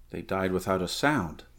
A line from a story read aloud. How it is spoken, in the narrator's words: muttered the Cimmerian